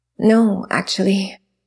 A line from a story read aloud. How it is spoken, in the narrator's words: Milo sighed